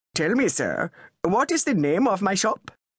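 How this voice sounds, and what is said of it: Posh public school English accent. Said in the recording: “said in his public school accent”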